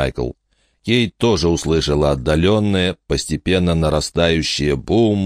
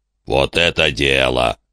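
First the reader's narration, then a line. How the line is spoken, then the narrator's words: Growled. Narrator (Russian): прорычал Большой Рог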